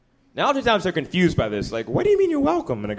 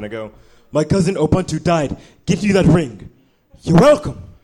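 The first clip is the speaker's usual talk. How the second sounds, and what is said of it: Put-on African accent. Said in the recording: “in my best African accent”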